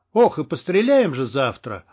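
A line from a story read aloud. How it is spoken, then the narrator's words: Drunken yell. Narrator (Russian): заорал кто-то во дворе нетрезвым голосом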